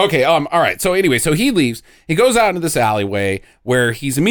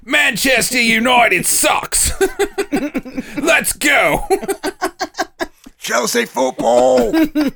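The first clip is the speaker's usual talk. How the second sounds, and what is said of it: Mock Australian accent. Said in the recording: “Here's ... Australian imperson- impersonation ... Good Aussie.”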